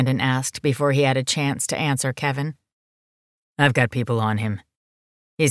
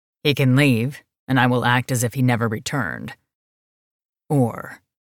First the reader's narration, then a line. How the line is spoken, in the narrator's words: his voice deepened, his animal pushing at his skin